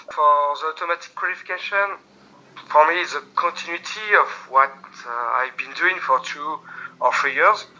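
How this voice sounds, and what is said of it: French accent in English. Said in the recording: “my bad English and my French accent”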